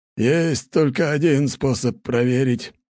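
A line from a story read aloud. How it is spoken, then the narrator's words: Grumbling. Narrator (Russian): проворчал Лажон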